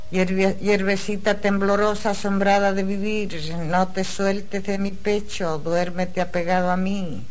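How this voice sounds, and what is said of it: Strong Chilean Spanish accent. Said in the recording (Spanish): “chilena es chilena, ¿eh? Con ese acento que tiene... Se notaba un montón”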